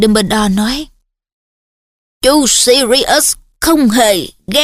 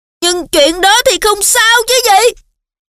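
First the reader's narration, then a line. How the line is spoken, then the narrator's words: Yelled. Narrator (Vietnamese): Harry gào lên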